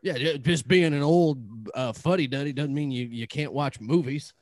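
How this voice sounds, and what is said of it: Bear character voice, Southern accent. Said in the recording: “Inside Out Bear with a southern accent ... It's a bear accent is what it is. This is how bears talk.”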